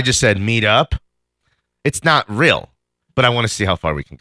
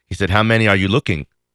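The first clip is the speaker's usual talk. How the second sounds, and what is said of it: Put-on accent. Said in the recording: “I don't know why I added the accent”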